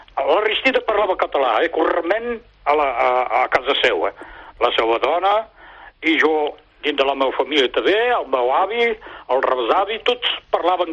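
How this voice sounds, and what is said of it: Catalan spoken with French accent. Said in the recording (Catalan): “Amb accent francès.”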